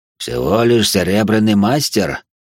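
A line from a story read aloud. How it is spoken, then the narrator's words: Hoarse. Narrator (Russian): раздался хриплый голос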